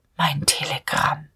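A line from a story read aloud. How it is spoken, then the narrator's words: Barely audible inner murmur. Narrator (German): Innerlich in so tiefer Seele, dass er es selbst kaum hörte, murmelte Dieterich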